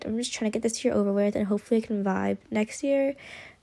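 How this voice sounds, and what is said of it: Low, quiet late-night voice. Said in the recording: “That's why my voice is so low, because I'm just filming this at night”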